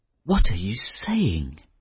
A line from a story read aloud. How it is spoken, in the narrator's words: murmured the young fisherman